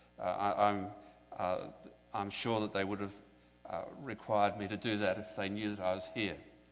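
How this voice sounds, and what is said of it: Very strong accent. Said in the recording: “I have a very strong accent ... My accent, I understand, is strong”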